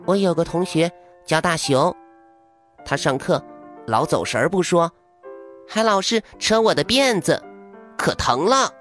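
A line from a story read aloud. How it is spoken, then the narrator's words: Sighing, long complaint. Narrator (Chinese): 娜娜叹了一口气，然后开始了长长的抱怨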